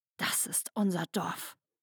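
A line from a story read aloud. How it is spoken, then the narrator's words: Hissed. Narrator (German): zischte sie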